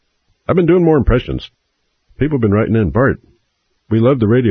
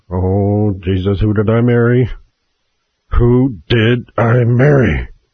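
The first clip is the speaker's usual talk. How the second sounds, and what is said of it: Captain Kirk impression. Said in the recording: “That was my Captain Kirk impression.”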